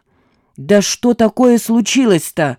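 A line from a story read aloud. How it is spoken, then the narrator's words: Yelling. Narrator (Russian): заорал Родионов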